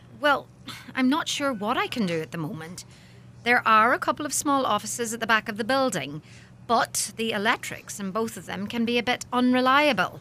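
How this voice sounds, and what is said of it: Regional accent. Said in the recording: “Your voice. Your accent. It's so regional.”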